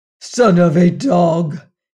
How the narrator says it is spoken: he cried in his own tongue

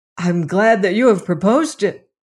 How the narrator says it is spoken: cried Robert Cairn eagerly

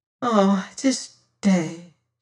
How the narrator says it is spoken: she sighed

